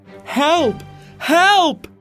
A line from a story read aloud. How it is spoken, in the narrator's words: Dantes yelled